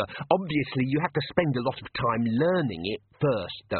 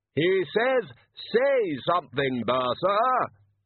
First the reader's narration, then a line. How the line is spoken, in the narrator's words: yelled Ridcully helpfully into Bursa's ear